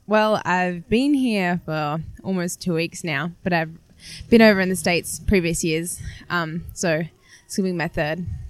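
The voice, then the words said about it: Slight Australian accent. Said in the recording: “I'm detecting a slight accent ... Yes, I'm Australian.”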